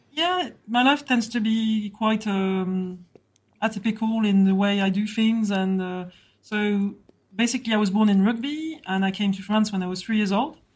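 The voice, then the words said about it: French accent. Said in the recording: “fabulous French accent”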